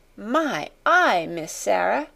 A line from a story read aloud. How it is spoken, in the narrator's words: gasped Becky again